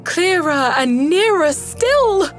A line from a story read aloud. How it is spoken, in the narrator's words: cried Rat joyously